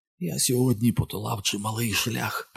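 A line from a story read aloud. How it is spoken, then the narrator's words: Whispered. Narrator (Ukrainian): прошепотів Декарабас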